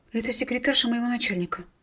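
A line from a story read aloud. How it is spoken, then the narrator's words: Barely audible babble. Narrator (Russian): едва слышно пролепетала Кира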